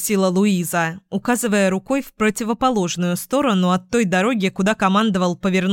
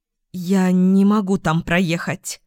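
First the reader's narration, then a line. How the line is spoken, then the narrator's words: Forced out, strained. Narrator (Russian): выдавила она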